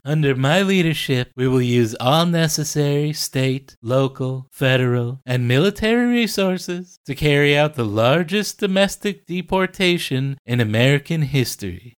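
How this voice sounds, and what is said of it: Imitates another person's voice. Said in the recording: “in your Trump voice”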